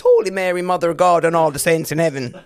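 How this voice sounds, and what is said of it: Put-on Irish accent. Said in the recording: “The only thing I think I can say in an Irish accent is ... My children speak better Irish accents than I do.”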